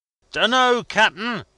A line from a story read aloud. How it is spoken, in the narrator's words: shouted back as loud as I could bawl